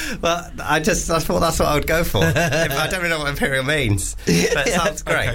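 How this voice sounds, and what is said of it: Usual voice. Nothing is said of it.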